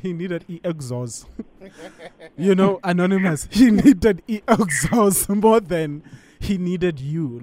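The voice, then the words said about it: Put-on African accent. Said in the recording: “I'm going to say this in my African accent.”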